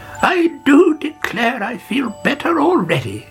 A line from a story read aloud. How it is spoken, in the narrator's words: she cried